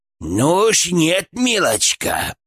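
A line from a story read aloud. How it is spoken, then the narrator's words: Hiss. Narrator (Russian): прошипел Гфырк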